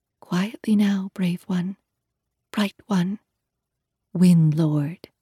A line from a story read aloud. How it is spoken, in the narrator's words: whispering